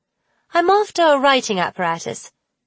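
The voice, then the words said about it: Put-on British accent. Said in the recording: “said in a British accent”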